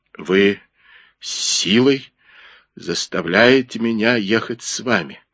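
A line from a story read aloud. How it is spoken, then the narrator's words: Trembling voice. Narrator (Russian): дрожащим голосом заговорил Джипа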